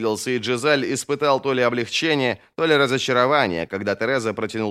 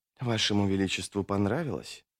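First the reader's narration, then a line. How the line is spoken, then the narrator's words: Whisper. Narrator (Russian): прошептала Тереза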